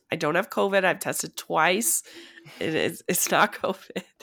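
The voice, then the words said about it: Sick-sounding voice from a cold. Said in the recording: “forgive my voice. I sound more sick than I am. I've just got a cold. ... I have a sexy sick voice today”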